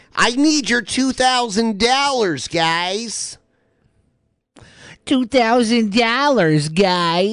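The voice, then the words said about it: Exaggerated Ohio accent. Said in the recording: “I'm turning up the Ohio accent really quick.”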